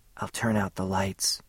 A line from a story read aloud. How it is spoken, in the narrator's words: she whispered